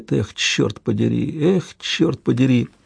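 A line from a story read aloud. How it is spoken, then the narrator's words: Whispered repetition. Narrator (Russian): Жозеф шепотом повторяет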